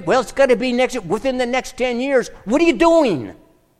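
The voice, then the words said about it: Yelling loudly. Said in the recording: “Now it sounds like I'm yelling at you, doesn't it? Tone it down. Tone it down.”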